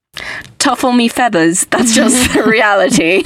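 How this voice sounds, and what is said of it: Put-on British accent. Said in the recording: “why am I talking in a British accent?”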